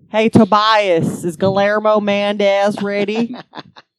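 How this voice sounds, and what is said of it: Put-on Southern accent. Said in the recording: “Is that your southern accent?”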